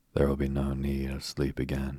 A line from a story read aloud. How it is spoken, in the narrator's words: he said